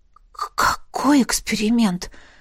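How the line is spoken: Hoarse questioning. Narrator (Russian): Хрипло переспросила

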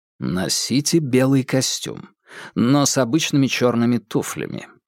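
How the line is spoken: Plain. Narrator (Russian): сказал Холмс

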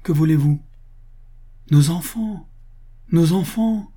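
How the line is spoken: Exclaimed together. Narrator (French): s'écrièrent-ils

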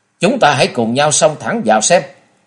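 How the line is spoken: Angry loud shout. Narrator (Vietnamese): Nhiếp Hồn Kiếm Từ Phàn nổi nóng quát to

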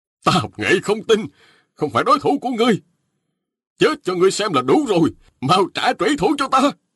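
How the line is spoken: Pale, shaken shouting. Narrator (Vietnamese): Động Quyền tái xanh cả mặt quát lên

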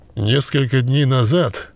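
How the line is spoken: Reluctantly forced out. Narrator (Russian): выдавил он наконец

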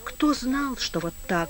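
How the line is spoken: Withdrawn mutter. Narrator (Russian): буркнул Сметанин, затаиваясь в себе

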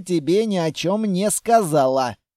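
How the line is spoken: Hulking man's snort. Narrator (Russian): хмыкнул амбал

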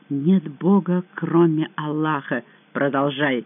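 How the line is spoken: Mumbled. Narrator (Russian): пробормотала

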